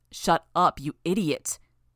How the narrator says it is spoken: Sator snarled the words

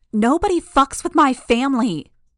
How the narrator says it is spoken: she shouted

